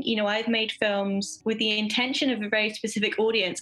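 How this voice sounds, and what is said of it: English accent. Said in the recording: “from your accent, for most of us in the US, you're a little bit across the pond there ... originally from a very small town in East Sussex, England”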